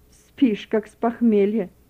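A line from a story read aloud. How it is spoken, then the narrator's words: Displeased grumbling. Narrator (Russian): недовольно ворчала она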